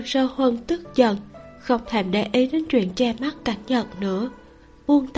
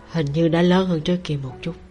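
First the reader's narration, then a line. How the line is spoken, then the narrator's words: Husky, amused. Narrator (Vietnamese): Cảnh Nhật chỉ cong khóe môi lên mỉm cười, khàn khàn cất tiếng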